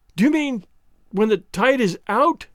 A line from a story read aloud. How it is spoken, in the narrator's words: I cried, and could not finish